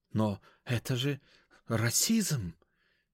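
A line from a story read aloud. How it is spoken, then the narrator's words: Nearly stammering. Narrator (Russian): Бедный парень чуть заикаться не начал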